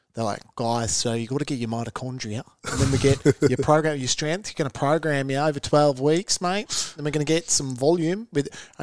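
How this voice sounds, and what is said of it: Mock Australian fitness trainer voice. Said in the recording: “an Australian struggles to sound intelligent”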